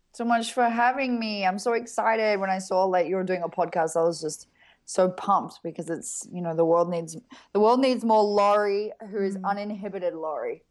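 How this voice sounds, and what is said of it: A distinctive, attractive accent. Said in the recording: “my accent... it's like the sexiest accent in the entire world”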